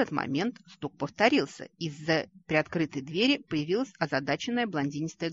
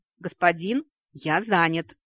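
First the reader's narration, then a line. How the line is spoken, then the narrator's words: Irritated bark. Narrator (Russian): раздраженно рявкнул ушастый властитель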